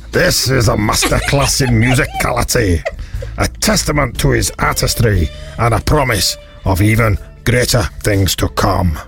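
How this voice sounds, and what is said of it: Attempted Scottish accent. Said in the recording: “I can't do it in a Scottish accent. Go on then, give it a go.”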